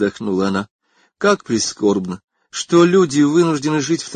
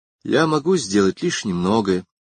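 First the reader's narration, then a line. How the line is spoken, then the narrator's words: Said sadly. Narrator (Russian): сказал он печально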